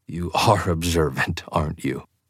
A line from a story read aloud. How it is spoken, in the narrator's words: I laughed again